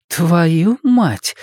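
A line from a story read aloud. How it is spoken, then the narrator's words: Exhaled exclamation. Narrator (Russian): выдохнула Саша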